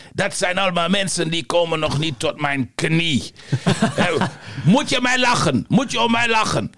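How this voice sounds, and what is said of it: Mediocre put-on Yugoslav accent. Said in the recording (Dutch): “Joegoslaaf ... Een matige, iets wat racistische imitatie.”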